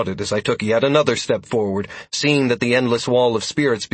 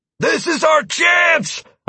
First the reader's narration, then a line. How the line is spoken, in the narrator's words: I roared